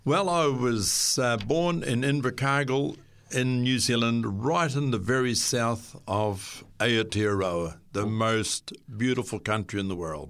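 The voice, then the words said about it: Southern New Zealand accent. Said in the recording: “your accent actually does give it away a little bit that you're from the deep south there ... It's a beautiful accent.”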